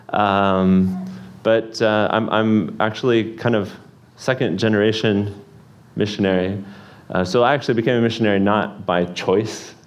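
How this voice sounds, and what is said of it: American accent. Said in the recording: “I think it is an American accent”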